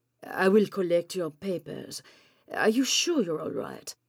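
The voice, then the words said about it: Man's line with a foreign accent. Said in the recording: “He's got an accent of some sort.”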